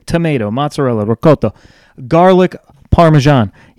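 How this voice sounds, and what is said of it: Put-on Italian accent. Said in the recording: “You like the accent there too. You're welcome. I'm just not a southern boy here. I can also throw in a little Italian accent”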